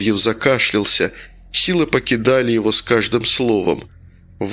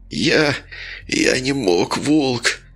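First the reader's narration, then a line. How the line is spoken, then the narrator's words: Professor's hoarse wheeze. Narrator (Russian): прохрипел профессор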